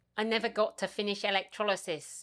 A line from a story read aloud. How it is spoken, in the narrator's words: Gemma says